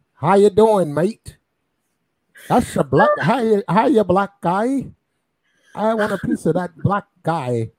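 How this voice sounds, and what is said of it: Put-on twangy Australian accent. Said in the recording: “go to Australia, man... you get that little twangy accent too.”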